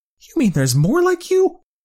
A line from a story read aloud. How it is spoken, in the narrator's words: He almost screeched, eyes widening in fear